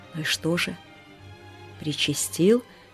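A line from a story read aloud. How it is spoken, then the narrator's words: Hunchback's whispered question. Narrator (Russian): шепотом спросил горбатый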